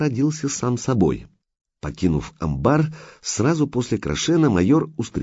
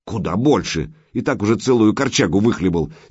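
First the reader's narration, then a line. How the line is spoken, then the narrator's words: Angry. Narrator (Russian): сердито проговорила Крашена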